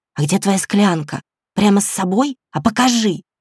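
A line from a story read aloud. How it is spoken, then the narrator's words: Excited hissing whisper. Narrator (Russian): возбужденным свистящим шепотом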